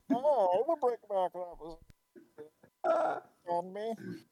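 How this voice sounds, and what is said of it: Imitates a movie villain's voice. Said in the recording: “to do a Bane impression”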